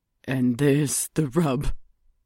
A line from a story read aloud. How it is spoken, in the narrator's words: he sobbed